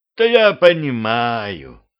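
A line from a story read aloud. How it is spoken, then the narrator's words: Sighing beast. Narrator (Russian): вздохнул зверь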